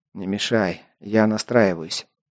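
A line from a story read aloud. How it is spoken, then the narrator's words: Displeased mutter. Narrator (Russian): недовольно буркнул я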